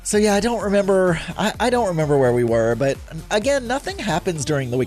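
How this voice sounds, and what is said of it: Stuffy nose, lower voice. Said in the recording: “My nose has been stuffy, and I feel like my voice is now lower today ... my voice is a little bit lower, the reason is because I've had some sinus drainage going on”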